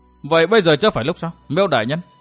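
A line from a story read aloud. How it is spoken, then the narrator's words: Sarcastic question. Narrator (Vietnamese): Địch Tuân mỉa mai hỏi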